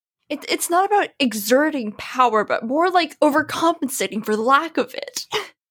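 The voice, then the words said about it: Imitates another person's voice. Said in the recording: “I tried to do an impression... how's my Reed impression, guys? I know it's not great”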